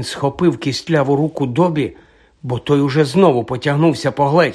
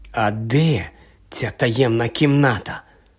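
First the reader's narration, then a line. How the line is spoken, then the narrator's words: Whisper. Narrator (Ukrainian): прошепотів Гаррі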